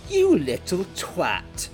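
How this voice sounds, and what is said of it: Imitates another person's voice. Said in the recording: “I'm sorry for the accent.”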